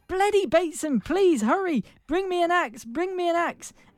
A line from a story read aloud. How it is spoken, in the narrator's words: As he neared the bottom, Rodney Jack called out